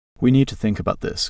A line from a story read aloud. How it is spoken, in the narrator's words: Carl said finally, his voice firm